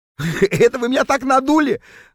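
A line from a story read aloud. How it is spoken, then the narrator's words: Laughing out loud. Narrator (Russian): захохотал Норберт, когда наконец понял, в чем дело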